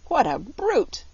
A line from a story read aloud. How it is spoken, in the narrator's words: croaked Billina